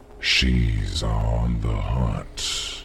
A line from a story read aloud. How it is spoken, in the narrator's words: said, his voice a mellow, gentle taunt